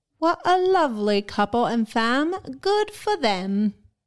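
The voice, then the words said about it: Put-on accent while reading. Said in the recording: “Was that an okay accent? ... That was very nice.”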